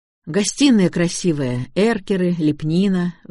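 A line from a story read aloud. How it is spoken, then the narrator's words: Sighed. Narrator (Russian): вздохнул я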